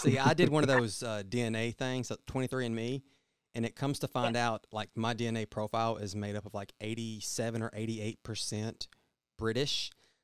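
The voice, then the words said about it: American country accent. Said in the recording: “you have the country accent ... this stupid accent instead of a British accent”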